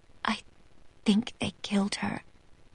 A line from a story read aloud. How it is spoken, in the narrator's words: she whispers